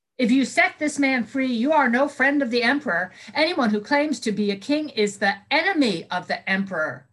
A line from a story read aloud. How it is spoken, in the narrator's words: the crowd again yelled